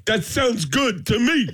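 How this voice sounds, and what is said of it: Imitates another person's voice. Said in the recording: “That's a great impression right there.”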